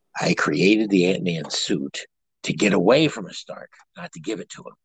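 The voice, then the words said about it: Michael Douglas impression. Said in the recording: “do a Michael Douglas impersonation”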